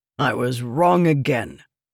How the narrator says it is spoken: said with a snort

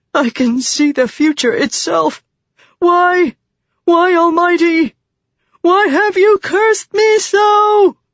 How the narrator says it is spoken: He screamed a pleading cry

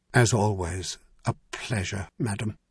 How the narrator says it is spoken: murmured

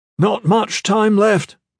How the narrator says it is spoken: Big Leo shouted

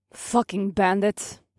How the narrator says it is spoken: Ira said through gritted teeth

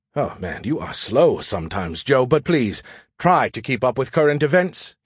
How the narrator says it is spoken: he said wearily

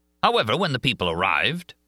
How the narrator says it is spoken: roared Richard

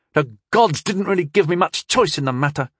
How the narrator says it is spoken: snapped Tyndall in return

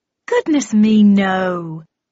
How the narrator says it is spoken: exclaimed Marianne with a delightful giggle

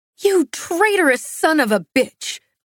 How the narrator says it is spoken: I spat

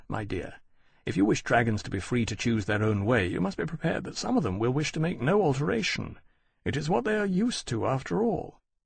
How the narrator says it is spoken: Lawrence said gently

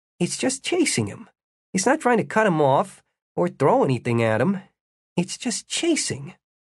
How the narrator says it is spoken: said, in a distracted voice

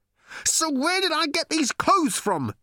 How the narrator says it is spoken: he howled

